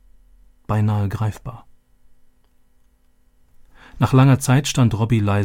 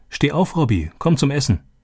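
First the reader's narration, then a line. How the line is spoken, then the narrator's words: Calling out. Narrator (German): rief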